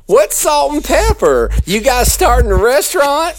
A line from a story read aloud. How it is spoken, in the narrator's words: said, giggling as only a southern bred, culottes-clad white woman would